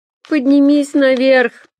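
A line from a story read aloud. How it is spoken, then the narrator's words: Moan. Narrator (Russian): простонал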